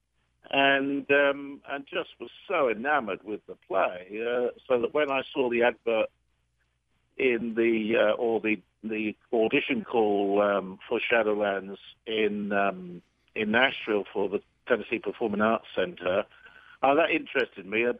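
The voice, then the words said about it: British accent. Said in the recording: “I've got a British accent”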